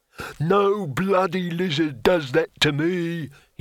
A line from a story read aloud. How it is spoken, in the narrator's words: roared